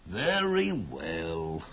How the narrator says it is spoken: sighed her uncle, a soft-hearted guy

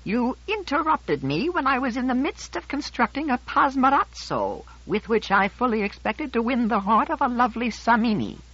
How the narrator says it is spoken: He said censoriously in his piping little voice

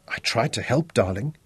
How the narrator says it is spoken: whispered

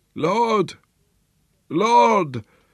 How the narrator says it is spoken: old Mtopo's hoarse croaking

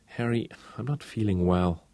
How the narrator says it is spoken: whined softly

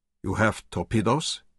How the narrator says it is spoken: asked anxiously

